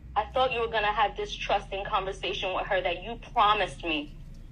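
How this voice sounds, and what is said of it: Latina accent. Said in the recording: “She sounds Latina. ... I can hear a Latina accent.”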